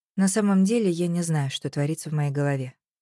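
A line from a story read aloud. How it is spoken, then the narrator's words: Nervous mumble. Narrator (Russian): промямлила я нервно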